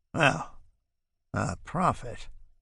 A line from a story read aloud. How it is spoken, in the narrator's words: he mutters